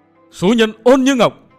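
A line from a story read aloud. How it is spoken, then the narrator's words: Tragic tearful scream. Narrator (Vietnamese): huyết lệ chan hòa hét lên một tiếng thảm thiết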